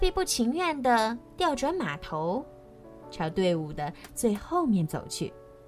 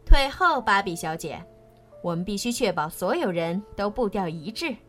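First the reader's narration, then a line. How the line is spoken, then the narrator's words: Loud. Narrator (Chinese): 他大声说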